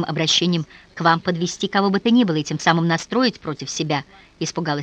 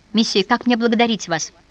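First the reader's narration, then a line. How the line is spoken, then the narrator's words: Exclaimed. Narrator (Russian): воскликнула она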